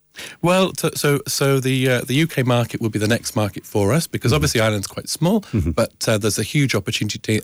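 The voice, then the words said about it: British accent. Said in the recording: “I'm actually from the UK originally. You might be able to tell from my accent.”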